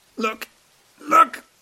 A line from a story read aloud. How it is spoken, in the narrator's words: gasp